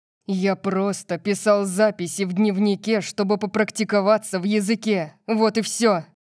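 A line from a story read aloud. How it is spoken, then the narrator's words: Growl. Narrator (Russian): прорычал Диего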